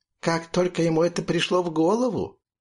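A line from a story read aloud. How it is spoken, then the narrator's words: Merry laugh. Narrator (Russian): весело рассмеялась Мила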